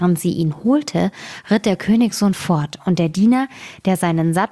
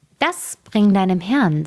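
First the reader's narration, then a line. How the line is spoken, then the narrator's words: Plain. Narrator (German): sagte sie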